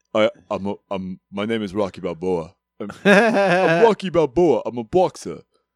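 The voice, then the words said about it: Rocky Balboa impression. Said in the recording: “You just got to kind of have this fucking accent ... There's a roll to your voice that you got to do. Not quite a Christopher Walken.”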